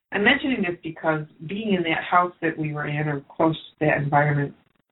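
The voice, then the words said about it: Strained, struggling voice. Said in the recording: “excuse me, my voice is just having a hard time today.”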